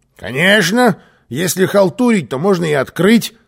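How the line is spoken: Muttering grumble. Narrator (Russian): пробурчал Карлсон

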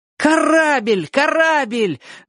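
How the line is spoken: Shout. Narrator (Russian): закричал Оник

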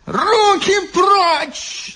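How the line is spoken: Old man yelling. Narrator (Russian): завопил старичок

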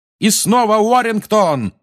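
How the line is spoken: Yelling. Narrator (Russian): орал Ли

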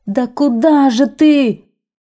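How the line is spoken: Desperate shout. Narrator (Russian): в отчаянии закричал синьор

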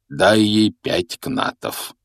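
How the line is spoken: Sleepy. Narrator (Russian): сонно произнес Хагрид

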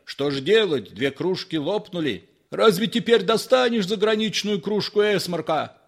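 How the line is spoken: Shouting. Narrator (Russian): кричал Галкин

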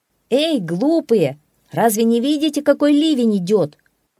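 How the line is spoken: Shouted. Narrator (Russian): Энензи крикнул

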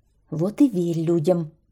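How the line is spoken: Grumbling. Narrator (Russian): ворчала гусеница

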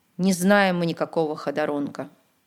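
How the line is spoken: Glum. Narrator (Russian): уныло сказал рыбак

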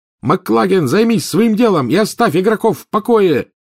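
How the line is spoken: Roared. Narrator (Russian): взревел Гарри

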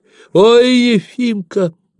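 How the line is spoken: Joyful mother shouting. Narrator (Russian): закричала обрадованная мать

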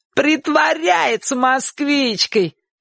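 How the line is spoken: Shouting. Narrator (Russian): крикнул Шурик

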